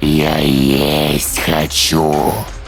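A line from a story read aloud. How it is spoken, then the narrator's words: Low growl behind glass. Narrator (Russian): раздался низкий рычащий голос из-за стекла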